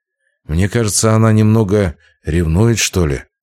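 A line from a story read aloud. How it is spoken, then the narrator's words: Sigh. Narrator (Russian): вздохнул Путилин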